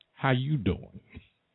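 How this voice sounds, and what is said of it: Imitates another person's voice. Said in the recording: “In my Wendy Williams voice,”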